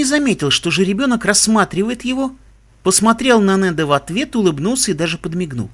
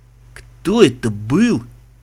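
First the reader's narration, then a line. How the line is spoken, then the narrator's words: Strained, forced out. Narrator (Russian): выдавил Мбицы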